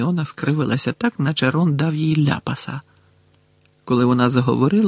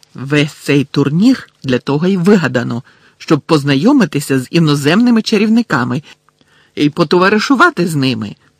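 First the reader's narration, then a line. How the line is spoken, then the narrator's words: Sharp reply. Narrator (Ukrainian): різко відповіла Герміона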